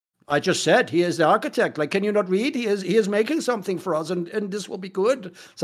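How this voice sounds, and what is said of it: Put-on German accent. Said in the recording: “I should start doing that German accent. Oh, it's not bad, is it?”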